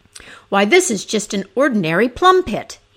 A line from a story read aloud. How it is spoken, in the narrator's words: exclaimed